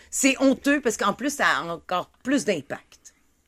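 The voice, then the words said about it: Put-on posh European French accent. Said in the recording (French): “Je vais le dire avec un accent pointu.”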